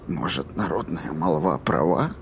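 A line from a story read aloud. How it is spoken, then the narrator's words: Quiet, to himself. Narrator (Russian): говорил он тихо, словно сам с собой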